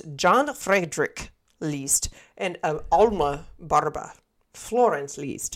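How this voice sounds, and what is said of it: Put-on German accent. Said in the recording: “I'm trying to give that, like, German accent... Did a great job, babe.”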